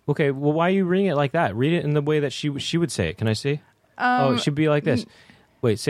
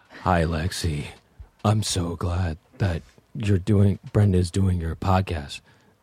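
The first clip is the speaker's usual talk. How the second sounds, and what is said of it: Imitates another person's voice. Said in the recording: “My impersonation of her... This is how she talks.”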